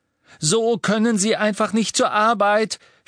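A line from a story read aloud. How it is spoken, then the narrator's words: Shouted. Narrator (German): schrie Hermine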